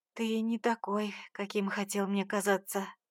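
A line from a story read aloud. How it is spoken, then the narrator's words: Whisper. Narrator (Russian): прошептала она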